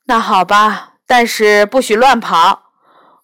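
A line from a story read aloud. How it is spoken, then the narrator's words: Mother sighing. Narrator (Chinese): 妈妈叹了口气说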